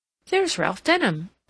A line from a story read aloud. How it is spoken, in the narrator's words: she exclaimed